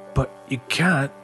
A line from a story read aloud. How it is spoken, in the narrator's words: Ian said softly